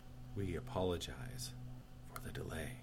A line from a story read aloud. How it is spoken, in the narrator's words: the air marshal whispered